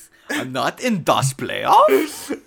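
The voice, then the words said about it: Put-on German accent. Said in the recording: “he's a hardcore German accent.”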